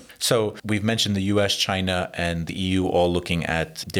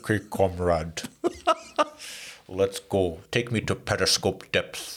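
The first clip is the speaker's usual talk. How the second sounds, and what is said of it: Sean Connery's bad Russian accent. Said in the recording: “Sean Connery. It plays a bad Russian accent”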